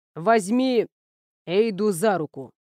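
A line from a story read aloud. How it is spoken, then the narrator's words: Through clenched teeth. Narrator (Russian): процедил Эйнар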